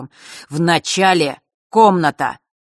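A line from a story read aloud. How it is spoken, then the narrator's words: Crisp and angry. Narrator (Russian): четко и зло произнес Рок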